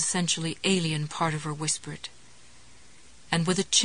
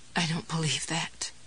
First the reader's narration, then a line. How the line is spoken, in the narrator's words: she said in a blurry, wavering voice